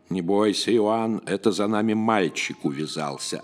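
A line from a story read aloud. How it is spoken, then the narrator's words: Plain. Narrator (Russian): ответил веснущатый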